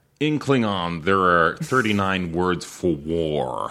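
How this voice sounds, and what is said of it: Put-on American accent. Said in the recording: “I love when people do American accents. ... That's a good American accent. ... It's not bad, but they all end up sounding like Liam Neeson.”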